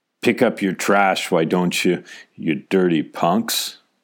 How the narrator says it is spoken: Skinny, hangdog as ever, he'd finally snarl

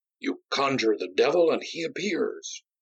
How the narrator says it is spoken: exclaimed in a whisper

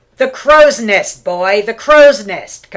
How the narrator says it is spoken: Cabrera cried

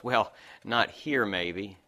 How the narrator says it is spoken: laughed

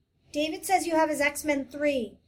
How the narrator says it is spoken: she shouted breathlessly

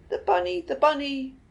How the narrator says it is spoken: she shouted

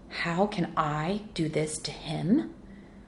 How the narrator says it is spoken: She sneered

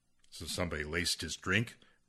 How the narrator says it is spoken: Ruth smiled harshly

